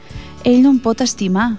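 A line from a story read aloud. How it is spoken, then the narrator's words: Seagull sighing. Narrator (Catalan): sospirava la gavina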